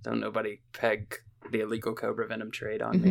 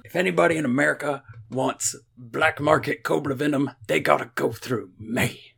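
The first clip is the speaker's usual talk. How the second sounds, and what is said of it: Imitates another person's voice. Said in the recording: “That's Jenna. That wasn't me. That was my Jenna impression.”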